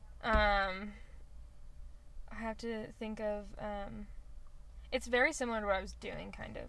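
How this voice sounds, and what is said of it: Slow drawling Western-style voice. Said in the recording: “I'm trying to sound like Phil. He talks like this. More of a draw... That sounds like a Western ... He's got more of a draw... Bit more slower speech... Bit more like a fuller mouth.”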